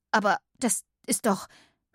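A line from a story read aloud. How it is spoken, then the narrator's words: Stammering. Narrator (German): stammelte Katinka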